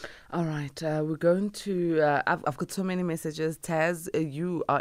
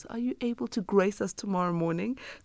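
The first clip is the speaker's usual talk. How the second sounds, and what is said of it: Small, timid mousy voice. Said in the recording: “in a very mousy voice”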